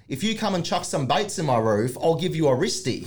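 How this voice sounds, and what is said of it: Broad bogan Australian accent. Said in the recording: “I guess we can call it bogan Australian accent... to an extent”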